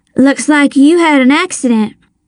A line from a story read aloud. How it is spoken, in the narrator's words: I said